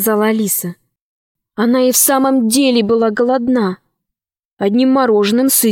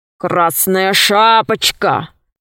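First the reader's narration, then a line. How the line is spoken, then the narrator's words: Wolf's growl. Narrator (Russian): зарычал волк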